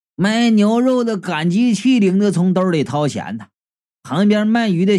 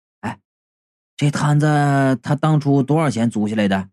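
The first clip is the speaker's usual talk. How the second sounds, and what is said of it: Quiet, hushed question. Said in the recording (Chinese): “小声就问”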